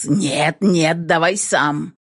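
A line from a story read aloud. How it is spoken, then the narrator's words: Hoarse wheeze. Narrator (Russian): Просипел я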